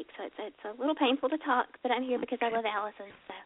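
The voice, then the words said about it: Weak, sick-sounding voice. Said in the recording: “apologize for my voice. I've had pneumonia all week ... My voice is still a little weak”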